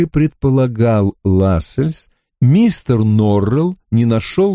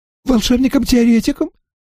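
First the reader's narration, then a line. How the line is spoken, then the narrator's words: Excited interruption. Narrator (Russian): взволнованно перебил мистер Норрелл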